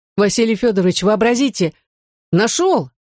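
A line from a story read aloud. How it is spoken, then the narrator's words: Exclamation. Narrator (Russian): воскликнул Саша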